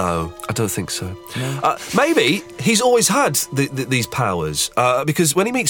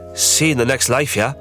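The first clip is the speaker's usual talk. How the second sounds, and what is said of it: Put-on Scottish or Irish accent. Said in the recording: “my Scottish accent, I've got a cold, so you don't really get the full effect ... That was better ... Which, of course, was Irish”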